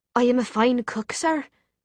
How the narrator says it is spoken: she said in a lilting Irish accent

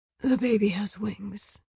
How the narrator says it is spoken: whispered

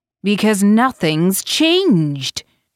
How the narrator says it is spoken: he exclaimed

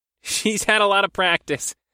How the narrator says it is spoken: Jay laughed

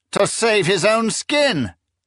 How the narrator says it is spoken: the exalt general snapped impatiently

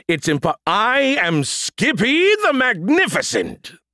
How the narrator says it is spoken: the voice roared

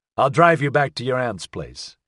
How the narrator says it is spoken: he said

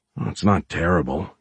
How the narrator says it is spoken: he muttered

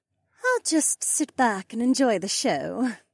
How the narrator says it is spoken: Becca sighed

